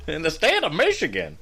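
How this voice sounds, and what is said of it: Put-on southern accent. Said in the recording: “I'm doing a southern accent”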